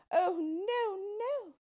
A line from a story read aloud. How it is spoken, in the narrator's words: she cried